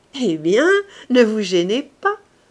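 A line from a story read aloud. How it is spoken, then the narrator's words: Laughing. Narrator (French): dit-il en riant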